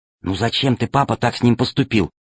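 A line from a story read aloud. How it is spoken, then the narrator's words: Whisper. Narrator (Russian): прошептала Алиса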